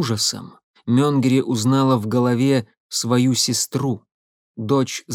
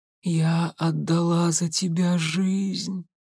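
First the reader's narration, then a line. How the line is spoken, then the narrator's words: Whispered. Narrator (Russian): прошептала Алиса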